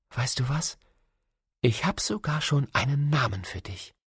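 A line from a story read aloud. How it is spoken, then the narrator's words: Soft whisper in ear. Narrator (German): flüsterte ihm leise ins Ohr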